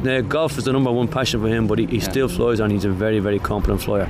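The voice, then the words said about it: Irish accent. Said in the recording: “if they can understand the accent ... the luck of the Irish”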